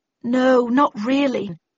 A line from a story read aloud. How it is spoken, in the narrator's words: I muttered